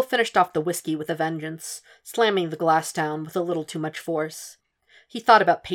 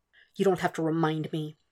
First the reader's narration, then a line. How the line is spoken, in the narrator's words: he whispered, aggrieved